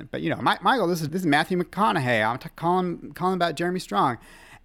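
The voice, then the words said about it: Self-described terrible Texan accent. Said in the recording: “This is going to be a terrible Texan accent”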